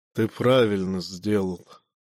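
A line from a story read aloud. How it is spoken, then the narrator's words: Sighing. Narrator (Russian): вздохнул амфитрион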